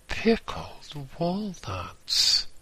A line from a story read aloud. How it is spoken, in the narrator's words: I exclaimed suddenly